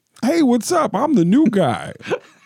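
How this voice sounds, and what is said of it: Imitates another person's voice. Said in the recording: “Here's my spot on Robert Trujillo ... that impression sounds more like Tracy Morgan”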